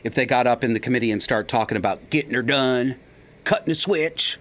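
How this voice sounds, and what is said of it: Put-on Southern American accent. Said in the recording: “I'm using the Southern accent. Of course, I don't come from the South.”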